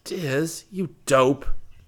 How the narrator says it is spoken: Rick moaned

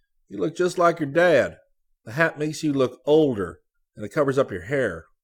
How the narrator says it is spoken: Scotty exclaimed suddenly

